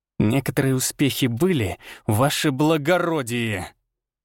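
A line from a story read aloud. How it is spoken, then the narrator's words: Furious hiss. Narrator (Russian): Чуть ли не с яростью прошипел Арий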